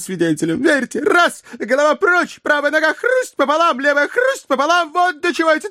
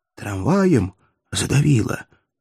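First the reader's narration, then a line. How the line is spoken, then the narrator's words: Whispered question. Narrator (Russian): шепотом спросил Поплавский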